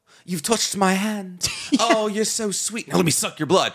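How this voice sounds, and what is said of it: Posh British accent. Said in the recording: “Accent you're doing... You're doing two different Brits... fancy-dancy Brit”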